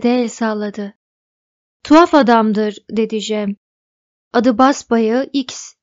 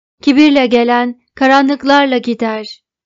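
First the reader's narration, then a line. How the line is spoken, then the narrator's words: Shouting. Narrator (Turkish): diye bağırdı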